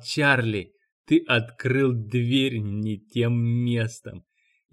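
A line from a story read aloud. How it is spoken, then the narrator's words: Laughing. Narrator (Russian): и засмеялся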